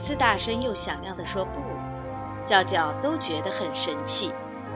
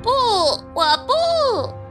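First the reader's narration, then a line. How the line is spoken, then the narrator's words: Curt, dismissive. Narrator (Chinese): 叫叫头也不回地说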